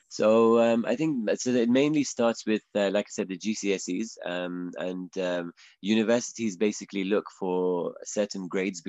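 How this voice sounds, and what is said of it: English accent. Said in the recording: “I hope my accent is makes it clear that I, am from England.”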